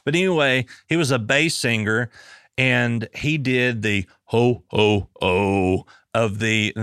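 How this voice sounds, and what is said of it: Poor deep bass ho-ho-ho impression. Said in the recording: “terrible, terrible impersonation”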